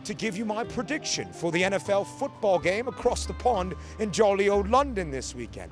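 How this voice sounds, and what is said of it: Put-on British accent. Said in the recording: “using my British accent ... What did you think of my British accent?”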